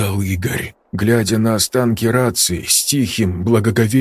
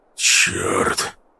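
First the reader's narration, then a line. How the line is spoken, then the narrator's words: Frowning mutter. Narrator (Russian): пробормотал Сергей, нахмурившись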